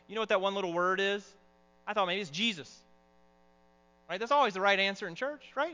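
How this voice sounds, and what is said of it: Southern American accent. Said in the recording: “you're going to hear my southern accent coming out. I don't think I'm doing it on purpose.”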